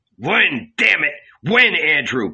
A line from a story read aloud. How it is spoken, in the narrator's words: Peter grumbled